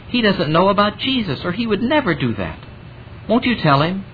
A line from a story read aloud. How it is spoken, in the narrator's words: she said earnestly